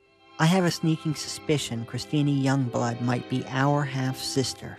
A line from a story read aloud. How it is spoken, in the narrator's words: she said